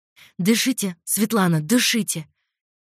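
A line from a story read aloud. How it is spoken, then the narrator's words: Frightened, coaxing. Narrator (Russian): Испуганным голосом увещевала меня девушка-медик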